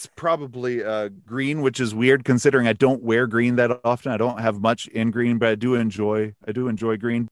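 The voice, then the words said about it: Noticeable regional accent. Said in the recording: “that accent warms my heart”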